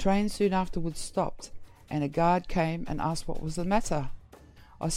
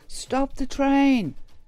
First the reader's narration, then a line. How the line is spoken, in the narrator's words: called out